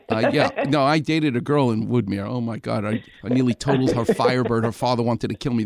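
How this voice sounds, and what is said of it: Far Rockaway New York accent. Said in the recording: “I still have my accent, thank God. I'm from Far Rockaway.”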